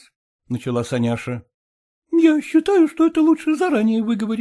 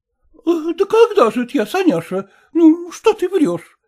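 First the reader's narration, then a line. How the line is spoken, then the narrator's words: Exclaiming. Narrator (Russian): воскликнула она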